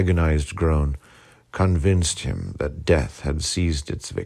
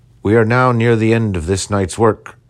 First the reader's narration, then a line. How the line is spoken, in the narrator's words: cried he